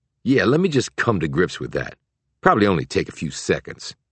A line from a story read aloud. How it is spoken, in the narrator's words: he added sarcastically